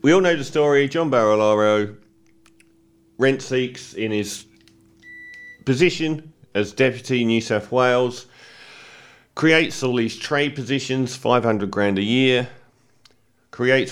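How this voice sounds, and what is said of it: Voice affected by a cold. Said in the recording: “apologies for my fourth two-week cold of this winter. So I don't know how my voice is going to go.”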